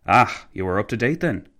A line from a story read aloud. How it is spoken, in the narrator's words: McCallville sighed